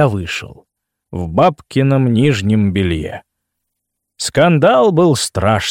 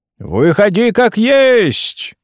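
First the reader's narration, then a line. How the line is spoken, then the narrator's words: Shouted. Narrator (Russian): крикнул он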